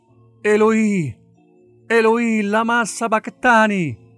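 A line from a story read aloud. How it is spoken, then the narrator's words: Loud cry. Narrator (Italian): Gesù gridò a gran voce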